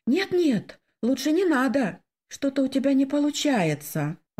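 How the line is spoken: Timid. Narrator (Russian): робко сказала я

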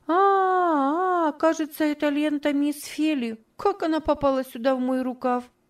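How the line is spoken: Surprised innocent exclamation. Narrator (Russian): удивленно, с видом полнейшей невинности, и воскликнула

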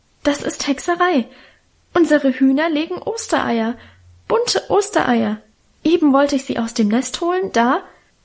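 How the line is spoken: Stammering. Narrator (German): stammelte sie

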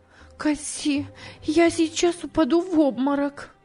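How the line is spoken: Exclaiming. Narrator (Russian): она воскликнула

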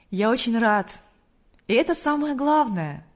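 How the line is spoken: Happy, smiling. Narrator (Russian): радостно улыбнулся хозяин дома

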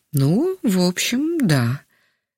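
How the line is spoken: Slightly uncertain. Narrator (Russian): немного неуверенно кивнул головой Яков Иванович

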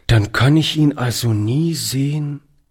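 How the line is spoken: Quiet. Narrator (German): sagte er leise

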